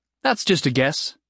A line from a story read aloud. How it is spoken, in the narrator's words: Jason said